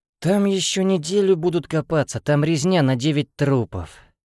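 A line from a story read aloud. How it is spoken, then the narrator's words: Regretful sigh. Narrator (Russian): вздохнул я, в отличие от парня, жалея, что сейчас не там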